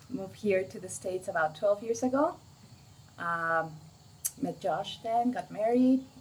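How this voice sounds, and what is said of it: Mexican Spanish accent. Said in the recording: “The accent is not German, it's from Mexico.”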